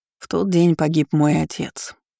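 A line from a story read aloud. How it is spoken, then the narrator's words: Even, flat voice. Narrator (Russian): ровным голосом произнес Мартин Вебер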